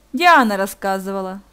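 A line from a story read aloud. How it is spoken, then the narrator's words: Said with a sigh. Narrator (Russian): сказал Ник и вздохнул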